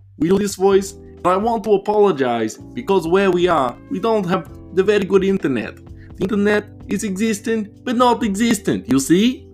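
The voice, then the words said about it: Put-on foreign accent, broken English. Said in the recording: “I won't do the accent for very much longer, but it's still fun to do”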